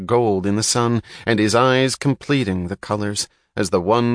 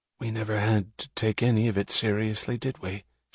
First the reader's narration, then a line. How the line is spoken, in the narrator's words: she whispered